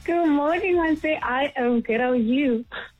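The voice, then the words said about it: Happy, excited voice. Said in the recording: “You sound happy.”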